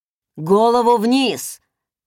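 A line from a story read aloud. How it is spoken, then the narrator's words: Barked shout. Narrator (Russian): гаркнул торговец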